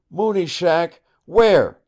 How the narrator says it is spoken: he cried

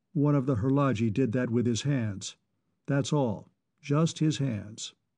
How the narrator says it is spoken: He looked up coldly and said

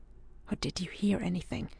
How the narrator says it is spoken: he asked, in the lowest of whispers

